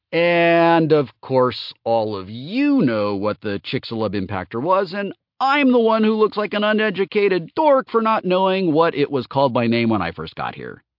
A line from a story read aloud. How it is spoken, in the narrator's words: Tom said, only a little bitterly